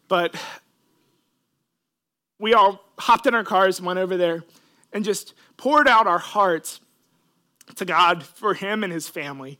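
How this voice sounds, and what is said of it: Emotional, choked-up voice. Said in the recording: “I'm going to get emotional, I'm sorry.”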